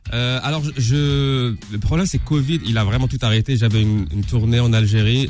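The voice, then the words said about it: Layered mixed international accent. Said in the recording (French): “chaque ville me rajoute un accent, une couche d'accent, donc on se retrouve un accent qui... l'accent nomade”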